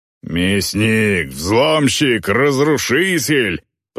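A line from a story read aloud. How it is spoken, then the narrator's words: Menacing roar, half-troll. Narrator (Russian): проревел Полутроль, грозно насупив брови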